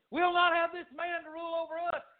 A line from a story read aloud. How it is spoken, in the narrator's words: They screamed